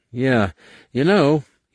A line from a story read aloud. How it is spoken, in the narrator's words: he said with a weak laugh